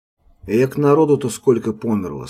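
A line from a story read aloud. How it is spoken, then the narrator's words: Calm quartermaster. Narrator (Russian): спокойно сказал каптенармус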